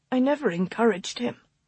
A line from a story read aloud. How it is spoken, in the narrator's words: she said miserably